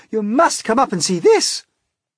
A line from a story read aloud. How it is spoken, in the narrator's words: they shouted